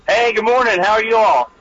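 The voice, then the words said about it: Excited, energetic voice. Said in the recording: “you sound excited. ... We're all wide awake this morning.”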